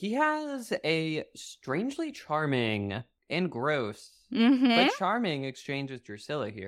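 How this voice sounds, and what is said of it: Usual voice. Nothing is said of it.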